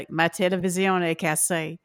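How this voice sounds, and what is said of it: French with Southern Cajun accent. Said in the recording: “French and a Southern accent go really well together ... we advanced to Cajun”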